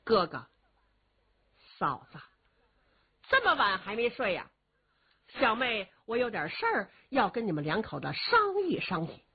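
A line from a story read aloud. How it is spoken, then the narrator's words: Suppressed anger. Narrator (Chinese): 新月娥是强压怒火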